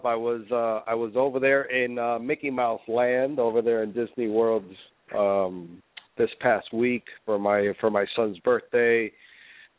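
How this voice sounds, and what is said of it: Congested, stuffed-up voice. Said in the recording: “my voice is a little stuffed up ... I caught something, and I've been stuffed up”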